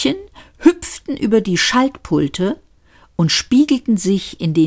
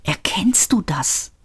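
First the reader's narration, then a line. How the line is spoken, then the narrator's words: Whispered. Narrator (German): flüsterte Seyfert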